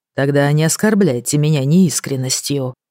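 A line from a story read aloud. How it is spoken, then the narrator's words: Plain. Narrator (Russian): сказал он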